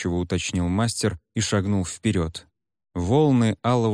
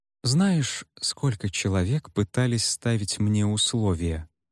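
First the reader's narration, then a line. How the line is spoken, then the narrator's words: Gentle, affectionate tone. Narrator (Russian): ласково заговорил мастер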